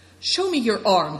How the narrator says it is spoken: cried Good Fortune hurriedly

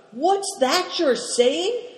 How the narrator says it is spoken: shouted Moonlight excitedly

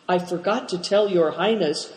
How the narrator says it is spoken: cried Cao Cheng

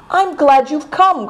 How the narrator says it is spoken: cried Seven Stars

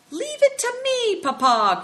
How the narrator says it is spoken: cried little Yu

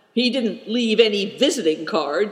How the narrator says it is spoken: said Good Fortune irritably

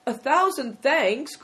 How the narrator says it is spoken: cried Christian and Big Tiger

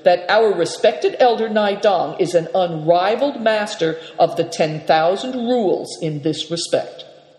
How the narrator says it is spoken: said Good Fortune sternly

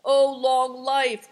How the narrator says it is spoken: cried one of the men

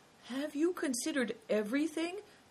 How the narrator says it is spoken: asked Big Tiger anxiously

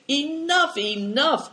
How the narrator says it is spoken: cried Tolis

